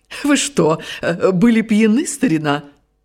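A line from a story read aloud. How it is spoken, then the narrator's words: Laughing. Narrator (Russian): Нагель рассмеялся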